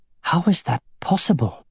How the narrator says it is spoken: she whispered

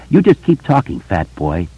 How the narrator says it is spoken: said softly

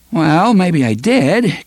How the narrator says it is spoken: Cuthbert said, laughing in an embarrassed way

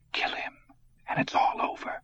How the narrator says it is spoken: he whispered in the darkness

